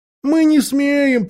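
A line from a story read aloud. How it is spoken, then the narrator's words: Many voices whimpering. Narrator (Russian): прохныкали десятки голосов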